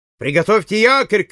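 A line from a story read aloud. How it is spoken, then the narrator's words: Shout. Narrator (Russian): крикнул Байфилд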